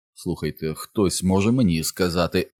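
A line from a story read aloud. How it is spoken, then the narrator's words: Muttering. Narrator (Ukrainian): забурмотів Ричард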